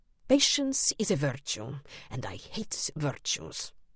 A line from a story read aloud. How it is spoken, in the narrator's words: he murmured